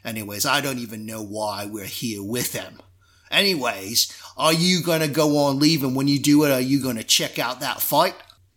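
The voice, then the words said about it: Put-on Cockney pirate accent. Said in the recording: “this kind of Cockney accent”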